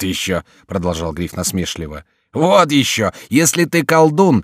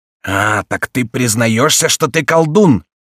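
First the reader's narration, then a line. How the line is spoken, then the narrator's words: Furious roar. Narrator (Russian): проревел с бешенством Гриф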